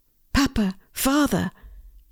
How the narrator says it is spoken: Jesus cried

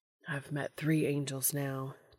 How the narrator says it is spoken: Dean mutters

